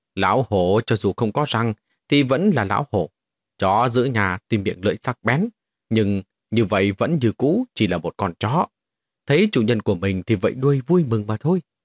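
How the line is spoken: Cold, distant voice. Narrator (Vietnamese): một tiếng nói lạnh lùng xen lẫn vào trong đó, truyền từ dưới núi truyền tới

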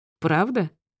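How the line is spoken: Chuckling. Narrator (Russian): Он хохотнул

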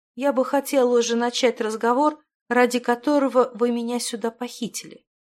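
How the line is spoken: Calm, restrained speech. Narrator (Russian): спокойно и сдержанно произнесла Стихана

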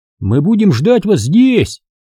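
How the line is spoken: Shouting after someone. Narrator (Russian): крикнул Чава вслед

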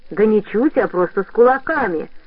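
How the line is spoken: Deep bass voice. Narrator (Russian): пробасил Хомер

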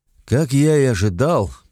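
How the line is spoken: Grumbling. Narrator (Russian): проворчал Ранч

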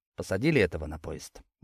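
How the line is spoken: Quiet question. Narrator (Russian): негромко спросил я

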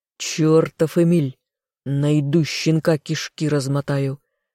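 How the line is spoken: Growl, pursuer. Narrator (Russian): рыкнул кто-то из преследователей

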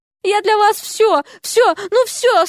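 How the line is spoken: Moaning behind door. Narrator (Russian): стонали за дверью

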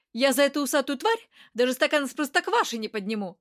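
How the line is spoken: Snapping retort. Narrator (Russian): огрызнулся Стас

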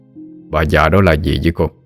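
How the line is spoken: Stern question. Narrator (Vietnamese): thầy Vận nghiêm nghị hỏi

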